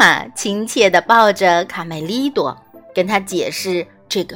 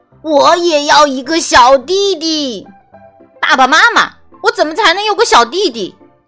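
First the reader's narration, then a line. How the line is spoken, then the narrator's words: Disappointed shout. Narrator (Chinese): 卡梅利多遭到拒绝后，他失望的大喊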